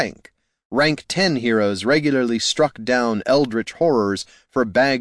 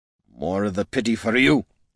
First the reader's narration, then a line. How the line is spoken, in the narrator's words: slurred Gorm